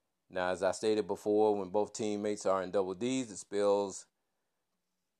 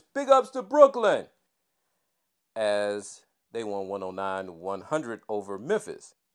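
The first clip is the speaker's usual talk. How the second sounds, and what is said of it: Put-on big boy voice. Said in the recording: “in my biggest boy voice”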